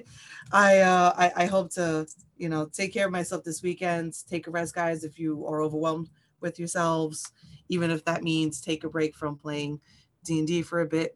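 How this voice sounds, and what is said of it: Raspy voice. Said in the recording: “I'm really raspy right now because I decided to inhale a bunch of dust yesterday from work.”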